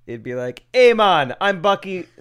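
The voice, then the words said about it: Italian-sounding put-on accent. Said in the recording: “No. Dang it, I almost had it. That's Italian.”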